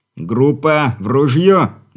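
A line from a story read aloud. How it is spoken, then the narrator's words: Deep-breath loud shout. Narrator (Russian): набрав в легкие воздуха, выкрикнул Игорь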